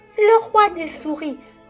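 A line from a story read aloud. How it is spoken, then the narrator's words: Joyful, terrified exclamation. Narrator (French): s'écria Marie, pleine de joie et de terreur à la fois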